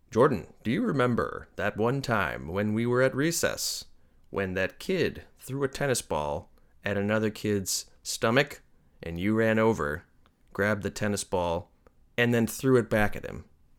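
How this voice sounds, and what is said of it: Announcer-style voice. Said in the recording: “do my announcer voice ... that's enough business voice”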